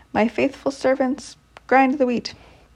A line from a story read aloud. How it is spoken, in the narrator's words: cried loudly